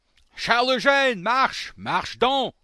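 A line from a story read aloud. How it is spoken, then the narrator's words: Loud rough shout. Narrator (French): cria-t-il de sa grande voix rude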